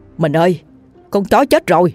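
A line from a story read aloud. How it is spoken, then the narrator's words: Startled shout. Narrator (Vietnamese): chú giật mình la lên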